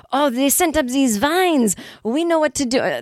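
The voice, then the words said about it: Attempted French accent, sounding German. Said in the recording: “they're like French aliens ... This sounds more like a Nazi ... I can't do it. What's up with my accent?”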